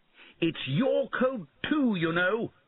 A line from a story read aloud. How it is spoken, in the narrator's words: he shouted